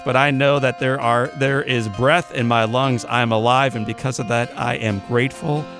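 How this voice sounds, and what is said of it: Out of breath. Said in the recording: “I'm out of breath”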